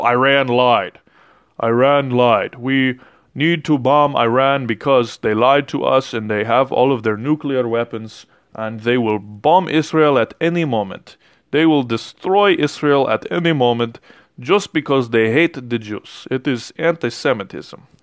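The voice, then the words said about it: Poor, hokey put-on accent imitation. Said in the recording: “That was not an excellent accent ... the hokey accents”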